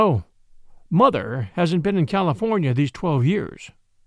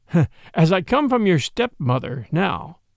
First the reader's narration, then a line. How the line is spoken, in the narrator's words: he went on, with a slight laugh